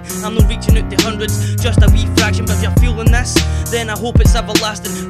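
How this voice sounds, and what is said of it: Scottish accent. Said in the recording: “People say I lack skills just because of my accent ... this passion I've got for the Scottish rap shit”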